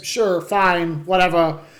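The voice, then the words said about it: Poor impression, sounds like dying robot. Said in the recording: “my best Christopher Walken impression. ... It sucked ... You sounded like a dying robot.”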